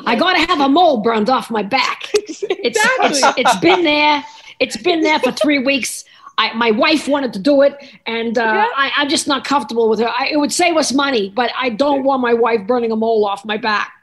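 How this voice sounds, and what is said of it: Good impression of someone. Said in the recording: “That's a good impression.”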